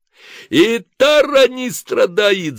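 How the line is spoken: Shrieking. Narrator (Russian): завизжал Ким

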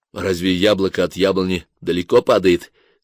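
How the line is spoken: Plain. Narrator (Russian): спросил Толя

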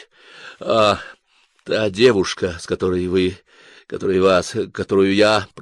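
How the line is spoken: Muttered. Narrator (Russian): пробормотал Толя

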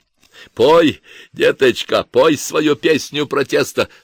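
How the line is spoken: Hoarse. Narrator (Russian): хрипел Чепцов

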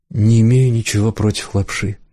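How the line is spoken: Uncertain, smiling. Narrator (Russian): неуверенно улыбнулась Морган

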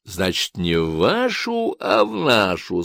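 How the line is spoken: Plain. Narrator (Russian): спросил

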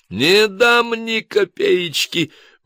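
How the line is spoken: Manic laughter. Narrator (Russian): вновь захохотал, как безумный

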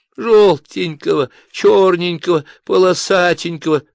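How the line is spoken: Moaning with a sob. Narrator (Russian): простонал с недвусмысленным всхлипом другой голос

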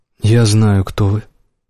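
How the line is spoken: Mumbled. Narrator (Russian): промямлил Робби

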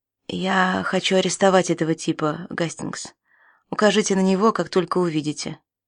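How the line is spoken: Quiet. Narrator (Russian): Бернли тихо сказал

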